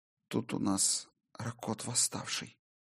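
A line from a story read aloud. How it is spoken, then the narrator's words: Flat, colourless whisper. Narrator (Russian): бесцветным голосом прошептала Солей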